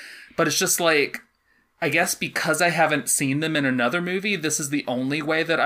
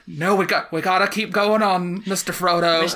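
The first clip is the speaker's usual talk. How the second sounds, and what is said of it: Put-on accent for a film character. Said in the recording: “these random voices I'm doing that is not remotely what they were in the movie ... Your accent, especially for Sam ... I think you were pretty spot on”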